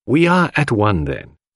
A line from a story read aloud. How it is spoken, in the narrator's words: said Poirot